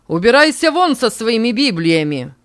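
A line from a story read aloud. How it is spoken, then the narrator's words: Hate-filled shout. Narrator (Russian): закричал Антонио, в котором вновь вспыхнула прежняя ненависть к священной книге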